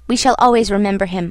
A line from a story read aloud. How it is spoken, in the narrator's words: I said hastily